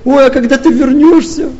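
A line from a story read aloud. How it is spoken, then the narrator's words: Whiny, tearful tone. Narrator (Russian): А третья таким плаксивым тоном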